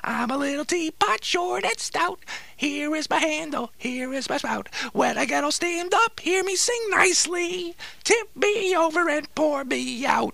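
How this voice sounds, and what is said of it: Yelling a sung nursery rhyme. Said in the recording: “Why are you yelling?... You're supposed to sing it nicely.”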